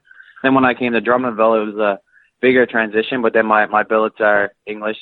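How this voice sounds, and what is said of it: Slight Newfoundland accent. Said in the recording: “I can hear the accent a little bit... English, French, and Newfie”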